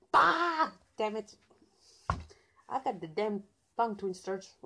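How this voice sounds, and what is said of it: Redneck-sounding accent. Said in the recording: “do I sound like a redneck”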